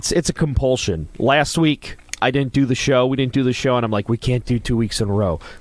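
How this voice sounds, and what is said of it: Hoarse, failing voice that cracks. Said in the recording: “season change sinus season. So, as you can tell, my voice is gone ... you're just going to hear my voice crack”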